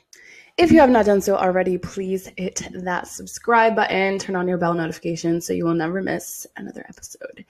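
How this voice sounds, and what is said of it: Raspy, hoarse voice. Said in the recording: “lost my voice this weekend, so bear with me if I sound a little bit more raspy than usual... It's giving like smooth talk radio”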